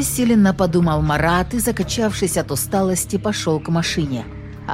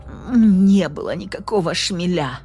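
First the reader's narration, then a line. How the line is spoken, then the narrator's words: Grumbling wounded witch. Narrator (Russian): проворчала раненая ведьма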